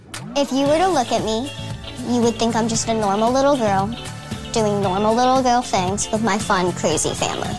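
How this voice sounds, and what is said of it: Little squeaky childlike voice. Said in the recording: “that voice, that little squeaky voice? ... it sounds like a young child.”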